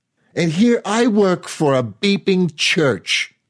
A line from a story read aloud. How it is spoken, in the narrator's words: Ma shouted